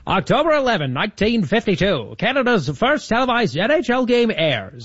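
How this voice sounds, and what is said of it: Old-timey radio announcer voice. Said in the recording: “your old-timey radio voice for hockey ... the old-timey radio voice”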